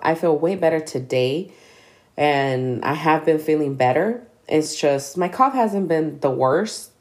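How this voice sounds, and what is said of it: Congested, sick-sounding voice. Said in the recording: “my voice is going to sound a little different. And that's because I'm still fighting the cough ... I still have a gang of congestion”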